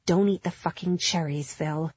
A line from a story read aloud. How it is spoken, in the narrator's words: she added grimly